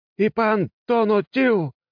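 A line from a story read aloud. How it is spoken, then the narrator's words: Priest shouting. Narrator (Russian): выкрикнул жрец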